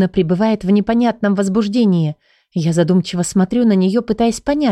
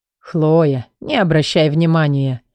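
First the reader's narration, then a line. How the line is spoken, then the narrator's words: Laughing. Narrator (Russian): засмеялся Халид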